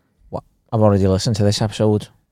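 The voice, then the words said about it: Put-on Scouse accent. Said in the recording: “I don't know why they're in a Scouse accent”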